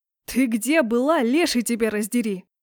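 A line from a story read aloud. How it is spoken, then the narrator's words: Angry bark. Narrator (Russian): рявкнул он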